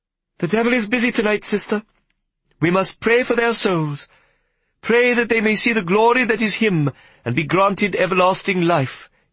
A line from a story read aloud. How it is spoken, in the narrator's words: he said in his girlish voice